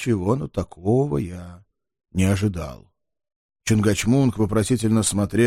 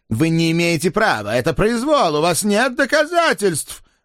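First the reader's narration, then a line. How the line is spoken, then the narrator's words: Loud desperate shouting. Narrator (Russian): громко закричал профессор в надежде доораться до уходящей публики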